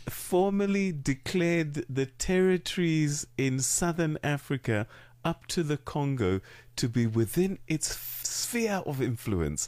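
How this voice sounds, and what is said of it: British accent. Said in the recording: “Says he with that British accent.”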